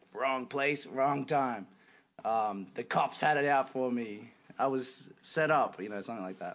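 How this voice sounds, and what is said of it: Poorly done put-on accent. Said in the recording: “My accents are getting worse.”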